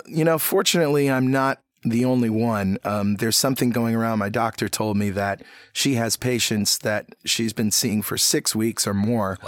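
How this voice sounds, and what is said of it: Froggy, hoarse voice. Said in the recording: “my voice sounds a little froggy. Well, I'm still not over this cold”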